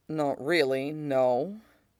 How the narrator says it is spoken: Mustang says slowly

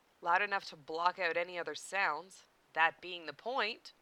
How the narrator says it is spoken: Issei replied dryly

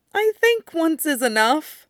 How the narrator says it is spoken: Brian said, whining a little

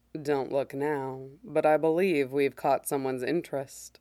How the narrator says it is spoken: murmurs

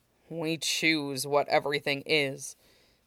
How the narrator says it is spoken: Aizawa countered bitterly

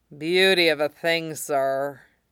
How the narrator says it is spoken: he purrs, words garbled and slurring with the force of his rumble

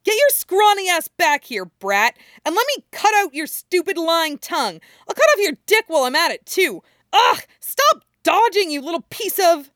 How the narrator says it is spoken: Anko screeches, shouting

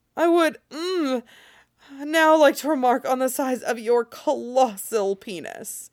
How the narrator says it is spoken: Jaskier choked out after Geralt pressed himself in a little further

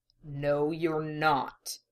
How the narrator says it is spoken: Roy growled, sensing the challenge in the young man and rising to it

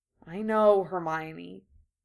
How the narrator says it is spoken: Harry said wearily

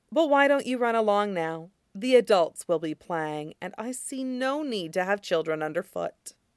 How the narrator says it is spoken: says kindly

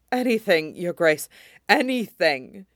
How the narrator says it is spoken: he panted out wildly

